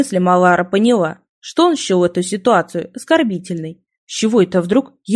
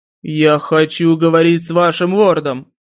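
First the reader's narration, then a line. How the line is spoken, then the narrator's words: Barking shout. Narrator (Russian): Рявкнул Ратикрель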